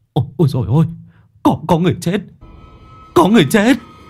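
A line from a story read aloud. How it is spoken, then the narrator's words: Shriek. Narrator (Vietnamese): rú lên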